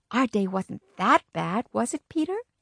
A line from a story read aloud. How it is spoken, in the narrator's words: My mother whispered to me